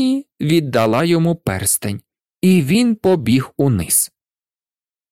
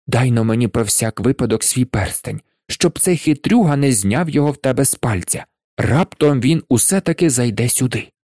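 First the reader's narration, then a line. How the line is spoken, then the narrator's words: Whispered. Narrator (Ukrainian): підбіг до дружини і прошепотів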